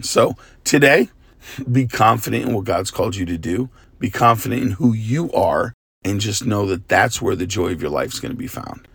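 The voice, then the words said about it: Tired, worn-out voice. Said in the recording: “Forgive my voice ... I've just been preaching a lot. So my voice is like tired.”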